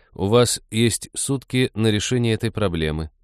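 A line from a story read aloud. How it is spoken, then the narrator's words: Cold. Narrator (Russian): холодно сказал Кай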